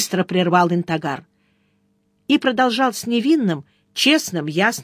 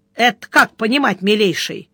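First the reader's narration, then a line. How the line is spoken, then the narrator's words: Menacing question. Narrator (Russian): грозно поинтересовался Сварог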